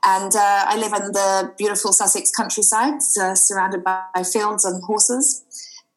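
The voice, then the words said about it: Slightly mixed Australian-British accent. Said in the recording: “I'm an Australian girl, and I moved over to the UK about 19 years ago, hence the slightly mixed accent.”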